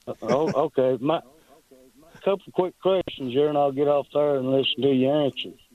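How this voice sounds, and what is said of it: Strong hillbilly Southern accent. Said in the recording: “my accent. I'm hillbilly as soup, beans, cornbread, and fried taters”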